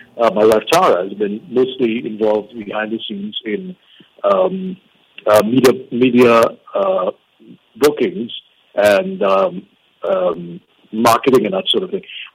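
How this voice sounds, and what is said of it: Sore, strained throat voice. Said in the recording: “excuse my voice. I have a little bit of a sore throat”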